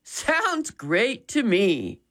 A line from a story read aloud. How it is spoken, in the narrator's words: Dad chuckled